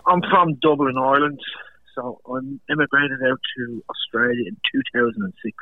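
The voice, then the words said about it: Irish accent. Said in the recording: “We can pick the accent there. ... I love the way the Irish talk.”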